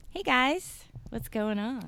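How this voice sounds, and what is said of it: Perky, friendly radio voice. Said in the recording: “you sound so perky and friendly... It's my radio voice.”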